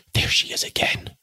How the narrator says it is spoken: Sue whispered in appalled accents

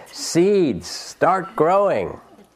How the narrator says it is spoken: Toad shouted

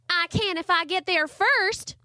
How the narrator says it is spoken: Charlie Ray yelled

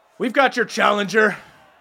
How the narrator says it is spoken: Skullis shouts out

